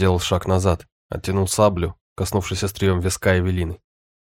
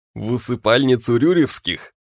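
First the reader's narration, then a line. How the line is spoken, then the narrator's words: Laughing. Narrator (Russian): Альберт рассмеялся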